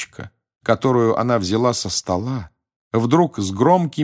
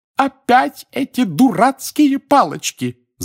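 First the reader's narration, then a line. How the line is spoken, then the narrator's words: Shouting. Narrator (Russian): закричала миссис Уизли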